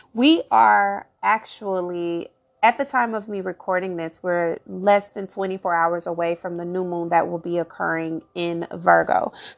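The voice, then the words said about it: Slightly raspy early-morning voice. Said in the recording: “if I'm sounding a bit raspy, that is why ... It's very, very early in the morning”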